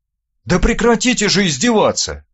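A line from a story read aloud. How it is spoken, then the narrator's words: Exclaimed. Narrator (Russian): воскликнул Бестужев-младший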